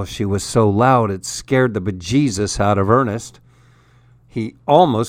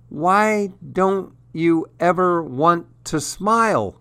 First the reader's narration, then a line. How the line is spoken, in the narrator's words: wailed Ernest's mother